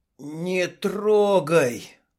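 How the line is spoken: Strained forced words. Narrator (Russian): кое-как выдавил из себя Дима

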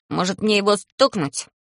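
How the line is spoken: Angry little voice asking. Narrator (Russian): злым голоском спрашивает Талм

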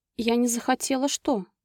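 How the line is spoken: Trembling-voiced question. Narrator (Russian): Дрогнувшим голосом спросила Анжела

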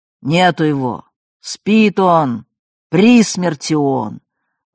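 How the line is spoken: Growled into the phone. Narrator (Russian): верный себе мизантроп Гинзбург только рычал в телефон

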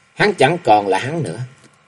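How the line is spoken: Gentle smiling. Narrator (Vietnamese): Cung y mỉm cười, khẽ lắc đầu nói

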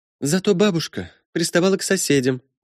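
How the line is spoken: Sighed. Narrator (Russian): вздохнула Селина

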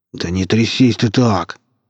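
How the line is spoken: Through gritted teeth. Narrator (Russian): цедил Качака сквозь зубы

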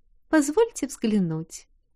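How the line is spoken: Lady cooing. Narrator (Russian): проворковала леди

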